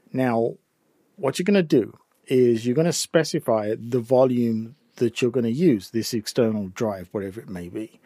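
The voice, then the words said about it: English accent. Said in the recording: “my English accent, some it may be difficult to sort of catch some of this”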